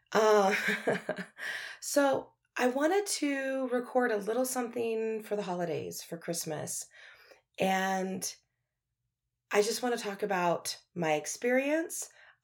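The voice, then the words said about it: Slightly froggy, hoarse voice. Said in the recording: “My voice is still a little froggy. I've been like three weeks post COVID... if it sounds weird, it's not the mic, it's just me”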